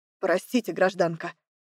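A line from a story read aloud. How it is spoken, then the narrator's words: Muttered under breath. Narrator (Russian): Пробормотав себе под нос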